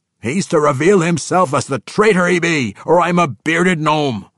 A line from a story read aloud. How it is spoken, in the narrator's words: Winko cried to his fellows, pointedly